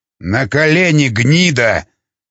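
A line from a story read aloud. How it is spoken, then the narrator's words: Shouted. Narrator (Russian): выкрикнул Бронислав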